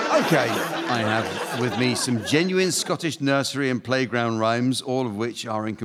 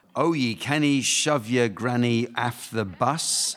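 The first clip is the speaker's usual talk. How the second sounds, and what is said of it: Thick Scottish accent. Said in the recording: “my Scottish accent is too thick, but it's authentic.”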